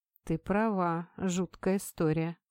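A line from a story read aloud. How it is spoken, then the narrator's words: Slow. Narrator (Russian): медленно произнес Сухен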